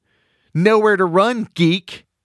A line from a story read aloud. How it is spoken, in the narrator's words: Mandy yells